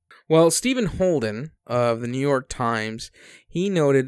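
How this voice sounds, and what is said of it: Usual voice. Nothing is said of it.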